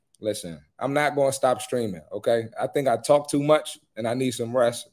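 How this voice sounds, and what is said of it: Strained, fading voice. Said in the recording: “Sorry if I'm losing my voice.”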